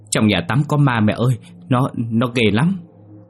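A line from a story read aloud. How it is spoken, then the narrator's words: Frightened stammering. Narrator (Vietnamese): Yến lắp bắp nói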